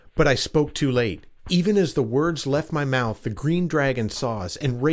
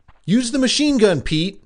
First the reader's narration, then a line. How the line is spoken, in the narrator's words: cried Jim